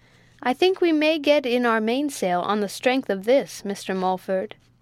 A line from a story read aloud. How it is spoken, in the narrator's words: said Spike